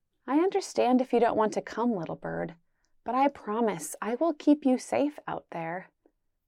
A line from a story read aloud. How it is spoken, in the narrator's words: whispered sweetly